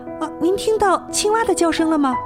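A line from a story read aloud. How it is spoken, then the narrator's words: Shouting. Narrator (Chinese): 波普鲁奇大叫道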